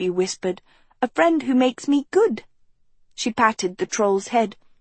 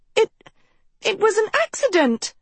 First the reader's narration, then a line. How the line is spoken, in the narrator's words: she cried